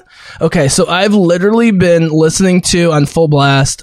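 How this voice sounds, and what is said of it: Loud, yelling voice. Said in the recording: “I'm sorry if I'm yelling”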